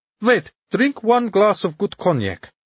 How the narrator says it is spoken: cried Muller

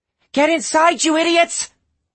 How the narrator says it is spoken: A voice, a girl's voice, screamed

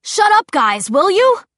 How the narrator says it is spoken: Simon yelled, the faintness of his voice making Clary suspect that he was holding the phone away from his mouth

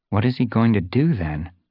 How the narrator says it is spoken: She murmured

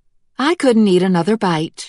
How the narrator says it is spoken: she lied cheerfully

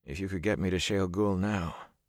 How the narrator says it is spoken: Rand said drowsily

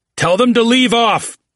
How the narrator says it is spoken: Oates cried

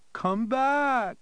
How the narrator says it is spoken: Danny pleaded

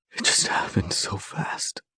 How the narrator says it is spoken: he whispers

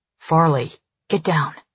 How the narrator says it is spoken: Cal growls, his voice almost lost among the rustling leaves

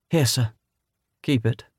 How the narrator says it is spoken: said Professor Lovell

